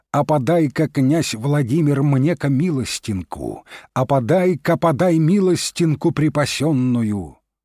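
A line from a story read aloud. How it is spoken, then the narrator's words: Mighty heroic shout. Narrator (Russian): Закричал он криком богатырским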